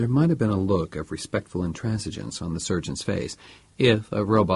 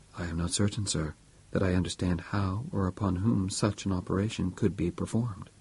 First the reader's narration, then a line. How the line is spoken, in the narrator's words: The surgeon said softly, with that certain inalienable note of respect that a robot always used to a human being